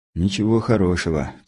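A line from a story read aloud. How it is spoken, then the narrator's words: Heavy sigh. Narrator (Russian): тяжело вздохнул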